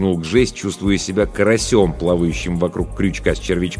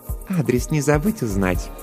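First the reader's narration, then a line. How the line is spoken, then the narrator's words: Purred. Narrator (Russian): промурлыкала Жанна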